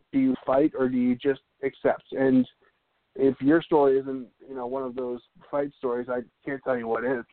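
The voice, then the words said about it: Hoarse, strained, nearly lost voice. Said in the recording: “I can't talk tonight. My voice is gone”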